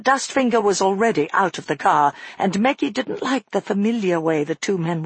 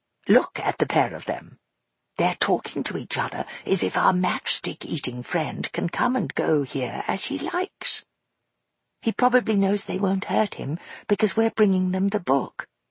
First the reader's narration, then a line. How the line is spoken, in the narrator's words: Maggie whispered back